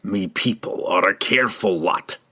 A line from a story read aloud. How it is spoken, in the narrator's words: he snarled, his own frustration and confusion boiling out again in his misdirected rage